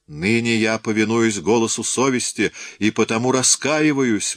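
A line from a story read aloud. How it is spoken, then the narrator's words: Wailing. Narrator (Russian): вопил Эврар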